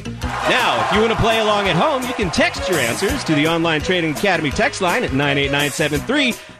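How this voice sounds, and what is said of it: Game show host voice. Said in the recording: “You like my game show voice?”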